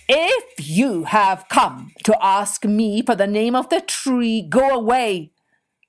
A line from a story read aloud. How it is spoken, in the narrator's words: roared the chief